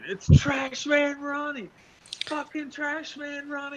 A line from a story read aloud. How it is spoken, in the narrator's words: screaming